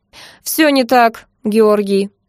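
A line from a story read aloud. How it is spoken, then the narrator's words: Dry, cold reply. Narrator (Russian): сухо ответила злыдня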